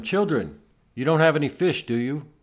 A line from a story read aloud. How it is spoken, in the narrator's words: He called out to them